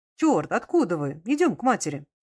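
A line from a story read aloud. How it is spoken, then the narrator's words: Joyful. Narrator (Russian): Д'Арсье радостно говорил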